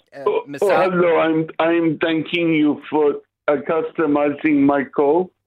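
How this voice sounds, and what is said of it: Put-on Indian accent. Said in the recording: “no need for the Indian accent.”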